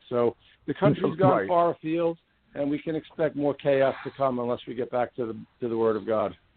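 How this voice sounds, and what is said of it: New York accent. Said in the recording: “I can sense that New York accent all the way.”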